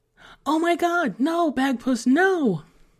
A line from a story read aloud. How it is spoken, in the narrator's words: Emily cried out behind him